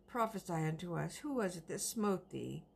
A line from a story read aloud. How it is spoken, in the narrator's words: cried out